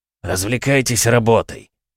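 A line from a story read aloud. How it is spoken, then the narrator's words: Gloomy reply. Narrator (Russian): мрачно отозвался тот, кого назвали Вьюгой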